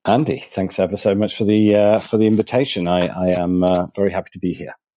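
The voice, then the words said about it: English Manchester accent. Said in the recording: “I know this probably wasn't the accent that you were probably expecting ... you come from the northeast of the UK, from Manchester”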